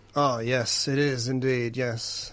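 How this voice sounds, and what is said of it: Smooth old man voice. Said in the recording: “I know an hour is a long time for an old man ... You're, like, smoother than I am ... Kentucky whiskey ... gargling salt water”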